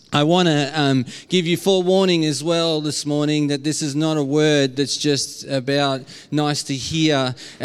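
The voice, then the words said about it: Strong Australian accent. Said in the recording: “in my very Aussie accent”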